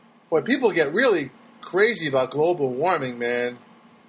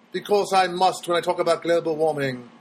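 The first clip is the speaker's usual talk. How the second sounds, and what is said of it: Put-on British accent. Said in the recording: “why am I talking in a British accent?”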